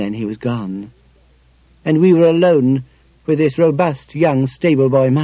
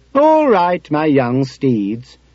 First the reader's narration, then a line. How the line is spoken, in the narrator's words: he said, in the same cheerful voice as before